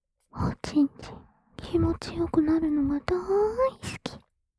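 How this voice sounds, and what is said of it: Whispering close to the ear. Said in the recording (Japanese): “耳元でささやかれながら”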